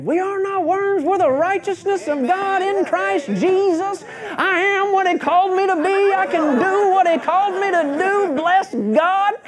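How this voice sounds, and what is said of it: Imitates a Texan preacher's voice. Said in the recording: “a couple of Texans get up and say ... That's my Joey impression.”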